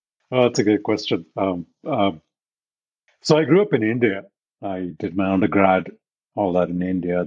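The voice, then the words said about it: Foreign accent in English. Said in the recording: “I, I, really love your accent. I love talking with people from different parts of the world.”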